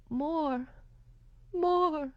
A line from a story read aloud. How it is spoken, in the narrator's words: Mama called out